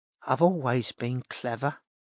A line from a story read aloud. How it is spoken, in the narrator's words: she mumbled